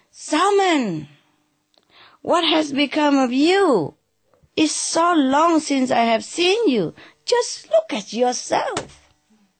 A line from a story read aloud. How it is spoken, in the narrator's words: Joseph cried